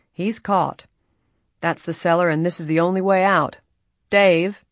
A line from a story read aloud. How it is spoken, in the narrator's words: Ed Rawley said grimly